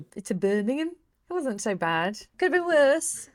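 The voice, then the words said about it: Put-on Midlands accent. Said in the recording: “Do my best Midlands accent. I apologize to anyone from Birmingham for that.”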